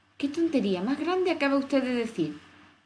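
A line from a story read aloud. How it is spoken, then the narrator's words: Emboldened exclamation. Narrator (Spanish): exclamó Alicia envalentonada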